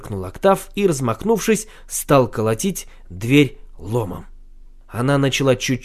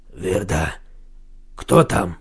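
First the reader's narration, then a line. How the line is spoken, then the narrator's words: Hoarse voice. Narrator (Russian): раздался хриплый голос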